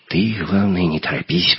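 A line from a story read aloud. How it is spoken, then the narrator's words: Whisper. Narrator (Russian): прошептал Леха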